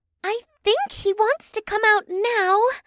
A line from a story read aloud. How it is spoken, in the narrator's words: the green winged woman sighed